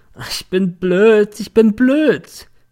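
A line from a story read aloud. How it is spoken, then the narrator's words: Sobbing drunkenly nonstop. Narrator (German): schluchzte in einer Tour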